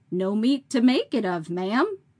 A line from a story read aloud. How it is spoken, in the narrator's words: said crossly